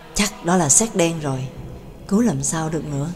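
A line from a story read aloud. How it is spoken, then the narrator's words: Muttering, near whisper. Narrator (Vietnamese): lẩm bẩm gần như thì thầm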